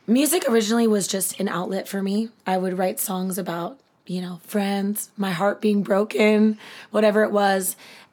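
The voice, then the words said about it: Slightly raspy voice. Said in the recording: “Little raspy.”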